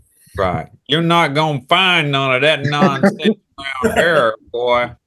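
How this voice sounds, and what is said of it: Put-on Southern US accent. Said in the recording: “You've been practicing your Southern accent, huh? ... that's the Southernness coming out of you”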